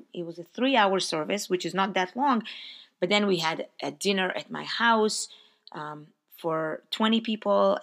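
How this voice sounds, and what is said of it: Slightly hoarse voice. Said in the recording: “My voice is a little bit hoarse now because I talked for a long time”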